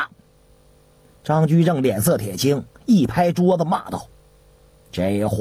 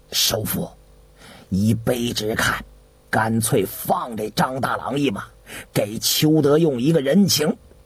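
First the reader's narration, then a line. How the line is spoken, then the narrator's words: Hushed whisper. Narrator (Chinese): 王传…压低了声音悄悄地说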